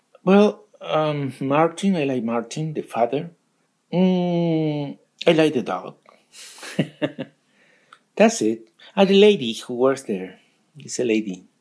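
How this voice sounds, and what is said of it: Foreign accent in English. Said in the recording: “I can hear the accent. ... Like my accent. ... You both have accents”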